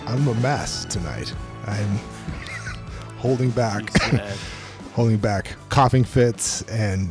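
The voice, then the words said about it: Deep, husky radio voice. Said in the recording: “radio voice... Evil Barry White ... sounds even more sexier than me than usual”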